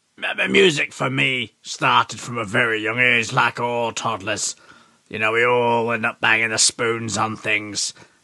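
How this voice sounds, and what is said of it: Yorkshire English accent. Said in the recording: “I was sent north as an evacuee up to Yorkshire ... I really picked up the accent, and I've never been able to shift it.”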